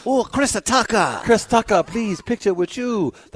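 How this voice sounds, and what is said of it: Put-on Mexican accent. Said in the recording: “That's my Mexican accent”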